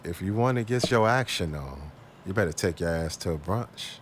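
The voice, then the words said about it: Late-night after-hours voice. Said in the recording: “I'm gonna say this in my after hours voice.”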